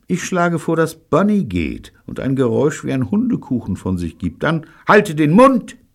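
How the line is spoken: Children shouting. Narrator (German): brüllten die Kinder

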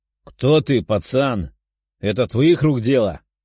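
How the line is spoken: Menacing older man's question. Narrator (Russian): грозным голосом спросил мужчина в возрасте

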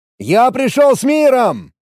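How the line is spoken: Yelled. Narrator (Russian): заорал я

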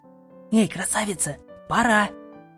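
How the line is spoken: Whisper. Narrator (Russian): Раздался шепот

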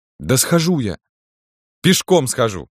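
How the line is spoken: Sobbing. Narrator (Russian): сказал и неожиданно опять всхлипнул

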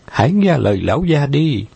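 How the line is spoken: Low pleading. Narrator (Vietnamese): Tố Tố thấp giọng cầu xin hai gã

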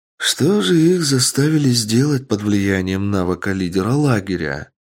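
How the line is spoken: Question after deep sigh. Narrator (Russian): Глубоко вздохнув, спросила Ника

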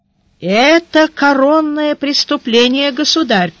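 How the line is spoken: Sad minister. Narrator (Russian): печально сказал министр полиции

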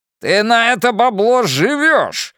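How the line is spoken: Yelling. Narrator (Russian): заорал Джерри

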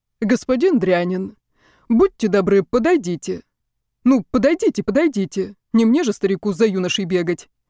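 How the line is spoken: Grumbling. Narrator (Russian): проворчал декан

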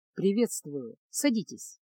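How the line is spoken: Unexpectedly deep voice. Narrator (Russian): произнес маг Дорог неожиданно низким голосом

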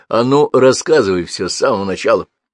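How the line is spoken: Deliberately rough angry command. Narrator (Russian): Гордей, злясь на себя за то, что поддался ему, нарочито грубо приказал

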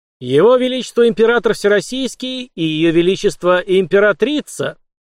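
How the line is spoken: Loud proclamation. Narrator (Russian): церемониймейстер громко провозгласил

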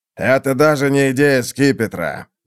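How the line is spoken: Grumbling. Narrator (Russian): бурчал посол

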